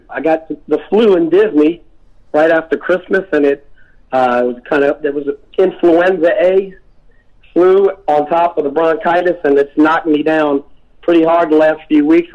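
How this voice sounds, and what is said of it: Raspy, scratchy voice. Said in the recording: “My voice is a little bit raspy because I am, I've been fighting for like 6 weeks now. I've been fighting bronchitis and the flu ... I've been coughing so much that my voice is a little scratchy, so I apologize if I sound like Rod Stewart or something ... raspy's good”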